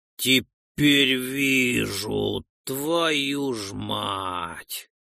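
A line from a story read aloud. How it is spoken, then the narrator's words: Drawling. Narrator (Russian): протянул напарник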